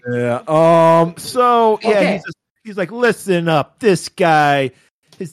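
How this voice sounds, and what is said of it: Usual voice. Nothing is said of it.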